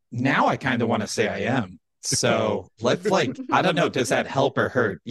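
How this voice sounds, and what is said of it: Electronically disguised voice. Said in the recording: “with a voice changer”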